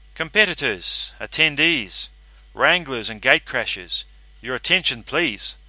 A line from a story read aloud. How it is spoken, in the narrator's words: I said at last, projecting my voice to drown out a drunken song coming from the far end of the bar